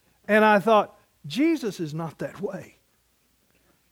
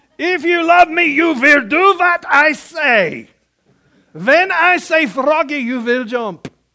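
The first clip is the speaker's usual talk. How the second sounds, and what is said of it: Put-on German accent. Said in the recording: “I always heard it in a German accent.”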